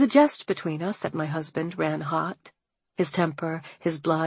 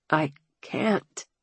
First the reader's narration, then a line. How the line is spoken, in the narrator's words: Hamilton rasped, as if forcing just those two words was an agony